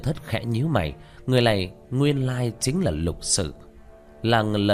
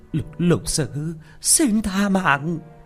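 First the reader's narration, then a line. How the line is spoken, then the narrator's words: Frightened cry. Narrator (Vietnamese): Quỷ kiểm bà mặt sợ hãi la lên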